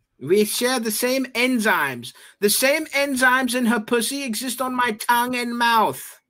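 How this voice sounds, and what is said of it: Einstein impression. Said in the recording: “my Einstein impression ... Yeah, it's pretty good.”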